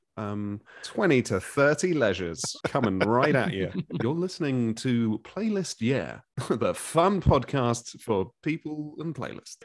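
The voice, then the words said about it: Radio DJ patter voice. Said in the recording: “radio DJ stuff ... You actually got quite a good radio voice”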